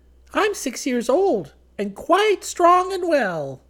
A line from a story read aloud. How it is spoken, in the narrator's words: with eyes sparkling with mischief exclaimed